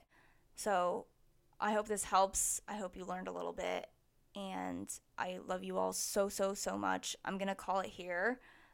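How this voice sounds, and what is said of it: Tired, fading voice. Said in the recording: “as you can tell, my voice is getting very tired... My voice is kind of slowly dying.”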